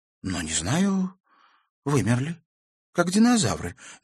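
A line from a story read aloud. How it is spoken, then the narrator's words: Unsure granddaughter. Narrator (Russian): неуверенно предположила внучка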